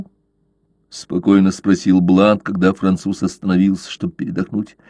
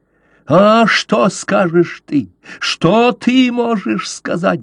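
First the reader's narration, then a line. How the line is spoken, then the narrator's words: Shrieking. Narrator (Russian): завизжал Каузак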